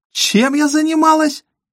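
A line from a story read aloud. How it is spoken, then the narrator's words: Almost shrieking. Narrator (Russian): почти взвизгнула Мэрин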